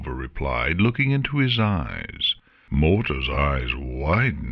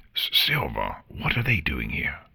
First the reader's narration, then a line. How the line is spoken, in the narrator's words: Morta whispered into Silver's ear